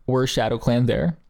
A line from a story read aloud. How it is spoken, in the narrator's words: asked Willowpelt